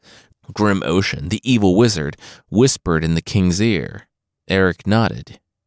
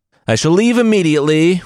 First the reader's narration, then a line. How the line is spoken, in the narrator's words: William cried